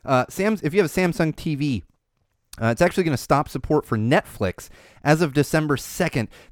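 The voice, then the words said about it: Strained, failing hoarse voice. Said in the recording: “My voice is going. Oh, my voice is going ... it's going. I'm not going to be able to talk tomorrow”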